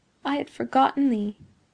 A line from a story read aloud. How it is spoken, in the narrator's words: murmured she